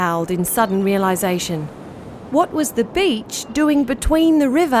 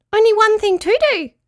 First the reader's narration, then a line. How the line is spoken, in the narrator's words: squeaked Petruchio